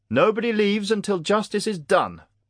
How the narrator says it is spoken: Prince Otico yelled in fury

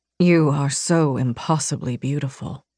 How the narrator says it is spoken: he murmured in my ear

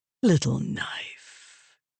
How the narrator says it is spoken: Moraes said, his voice growing softer

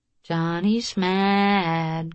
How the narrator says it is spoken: she said sweetly

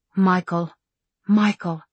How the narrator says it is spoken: she breathed

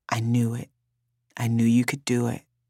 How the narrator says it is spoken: She whispered in my ear

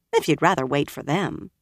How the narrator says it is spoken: Min said dryly

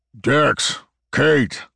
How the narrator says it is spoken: Cleveland's voice boomed from outside the door

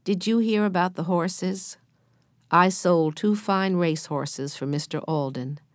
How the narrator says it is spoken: began Bill in a weak voice

